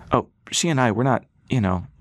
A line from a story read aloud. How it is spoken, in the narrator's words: Rass said, stammering